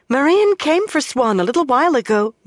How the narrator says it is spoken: Mirel said excitedly

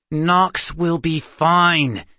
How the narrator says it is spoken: Seth said through gritted teeth

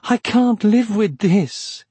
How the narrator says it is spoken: he moaned

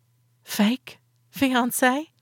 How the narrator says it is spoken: I whispered

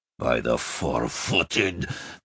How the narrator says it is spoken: Fekalmich growled at last, bemused

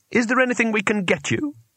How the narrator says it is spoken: said Twoflower, anxiously

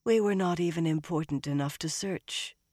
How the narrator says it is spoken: Elaine sighed

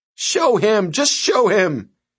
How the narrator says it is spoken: she pleaded with the man

